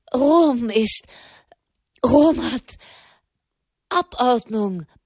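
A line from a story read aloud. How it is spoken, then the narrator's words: Panting. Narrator (German): keuchte Malerb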